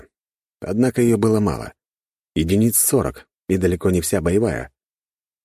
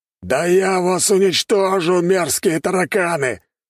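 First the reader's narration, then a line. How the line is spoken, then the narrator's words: Mighty warrior shouting. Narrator (Russian): прокричал могучий воин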